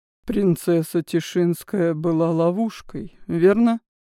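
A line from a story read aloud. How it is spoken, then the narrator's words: Flat colorless voice. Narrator (Russian): бесцветным голосом уточнил Азный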